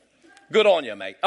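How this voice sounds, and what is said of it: Put-on Australian accent. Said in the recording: “That's Australian. I speak Australian.”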